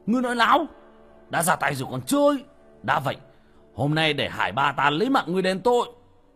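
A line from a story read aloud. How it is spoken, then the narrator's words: Deep breath, shouting. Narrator (Vietnamese): Người đàn ông hít sâu một hơi, quát lên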